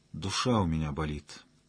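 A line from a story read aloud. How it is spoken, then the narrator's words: Sad young woman. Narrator (Russian): грустно ответила девушка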